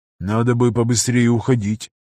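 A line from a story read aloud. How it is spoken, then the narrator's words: Flat toneless voice. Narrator (Russian): сообщил он бесцветным голосом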